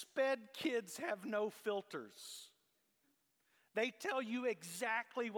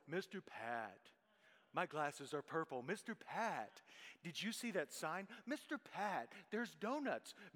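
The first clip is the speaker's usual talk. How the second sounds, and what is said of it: Really low-pitched imitated child's voice. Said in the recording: “she just calls me ... in this really low voice.”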